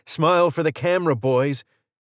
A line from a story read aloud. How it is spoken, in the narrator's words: shouted